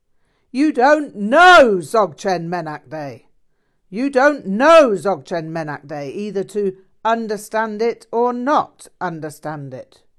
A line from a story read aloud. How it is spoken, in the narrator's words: Rinpoche shouted